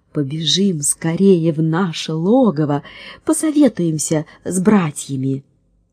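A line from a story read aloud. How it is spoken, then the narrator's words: Plain. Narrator (Russian): сказала волчица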